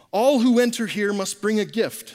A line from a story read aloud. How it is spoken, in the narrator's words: said Gabriel